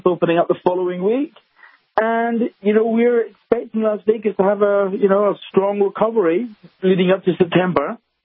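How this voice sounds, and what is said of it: Scottish Glasgow accent. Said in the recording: “you have the excellent Nevada accent. Where'd you get that accent? Via Scotland ... From the streets of Scotland, streets of Glasgow.”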